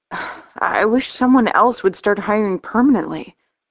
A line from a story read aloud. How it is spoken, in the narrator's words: I sigh